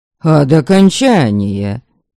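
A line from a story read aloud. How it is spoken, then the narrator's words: Snort. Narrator (Russian): хмыкнула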